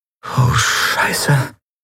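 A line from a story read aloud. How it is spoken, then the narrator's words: Whispered. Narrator (German): Lien, die flüsterte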